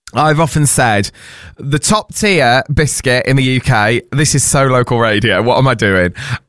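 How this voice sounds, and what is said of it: Hoarse voice. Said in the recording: “I'm going to tell you why I'm hoarse”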